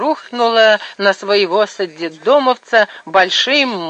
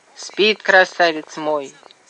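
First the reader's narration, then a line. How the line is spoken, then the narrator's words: Sighed. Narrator (Russian): вздохнула Туська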